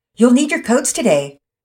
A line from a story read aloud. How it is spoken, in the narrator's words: Mama Peters shouted after them